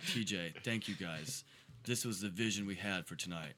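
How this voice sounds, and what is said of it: Imitates another person's voice. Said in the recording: “I'm doing a Mike Beatty impression”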